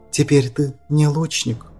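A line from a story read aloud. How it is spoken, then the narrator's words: Even, restrained tone. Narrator (Russian): ровным и сдержанным тоном отвечала Даниэль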